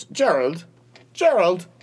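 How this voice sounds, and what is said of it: Fake British accent. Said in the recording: “in a very British voice ... a fake British accent”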